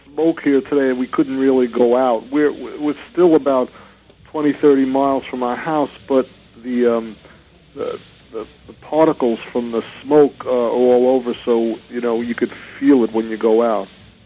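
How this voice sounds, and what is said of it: Brooklyn New York accent. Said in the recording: “from your accent, are you originally from the East Coast? ... Brooklyn ... I can't get rid of it. I've been out here 30 years, and it's still New York ... It's a great accent”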